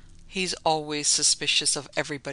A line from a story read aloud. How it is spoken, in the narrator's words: she said